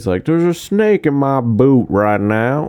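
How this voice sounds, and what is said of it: Put-on Southern accent, not very good. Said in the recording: “Have I ever done my southern voice? ... my voices are way off”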